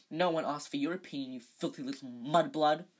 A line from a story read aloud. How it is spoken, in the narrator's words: he spat